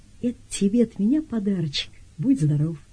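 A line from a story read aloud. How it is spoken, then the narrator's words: Very tender. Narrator (Russian): Гриша говорит очень ласково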